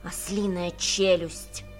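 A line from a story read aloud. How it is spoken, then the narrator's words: Fierce grumble. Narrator (Russian): свирепо проворчал Беппа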